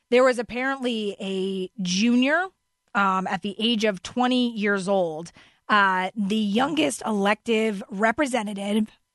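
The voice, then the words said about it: Hoarse, failing voice. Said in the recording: “I don't know why I'm losing my voice”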